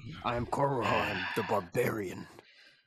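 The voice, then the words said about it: Barbarian character voice. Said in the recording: “That voice that you just did, you were doing a voice... I activated it on purpose... That's one of the voices.”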